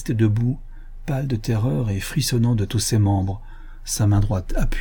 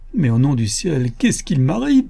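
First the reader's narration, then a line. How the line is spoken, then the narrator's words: Near-tearful cry. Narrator (French): s'écria, presque pleurant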